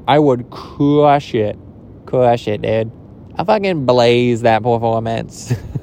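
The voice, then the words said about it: Imitates another person's voice. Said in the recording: “That was an impression of my sister's ex-boyfriend”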